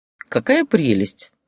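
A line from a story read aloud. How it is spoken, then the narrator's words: Laughing. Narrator (Russian): рассмеялась адвокат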